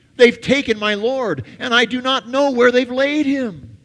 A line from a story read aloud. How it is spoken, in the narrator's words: Mary suddenly blurts out uncontrollably